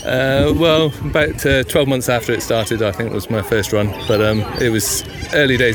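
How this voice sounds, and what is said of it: English accent. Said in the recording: “you probably guessed from my accent that I'm a Pommy”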